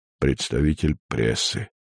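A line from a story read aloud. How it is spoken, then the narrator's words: Grumbling, snuffling. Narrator (Russian): проворчал тот, что сопел над правым ухом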